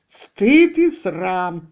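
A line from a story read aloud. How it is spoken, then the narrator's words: Grumbled. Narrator (Russian): ворчала Аманда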